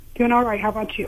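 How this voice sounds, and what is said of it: Nervous-sounding voice. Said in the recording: “You sound nervous.”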